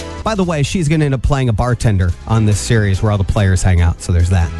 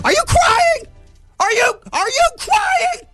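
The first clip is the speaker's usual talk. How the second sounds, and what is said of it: Imitates another person's voice. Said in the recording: “You do a good Tom Hanks impression.”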